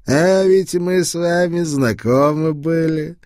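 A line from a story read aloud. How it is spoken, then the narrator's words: Hoarse, drink-roughened voice. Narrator (Russian): произнес он хриплым пропитым голосом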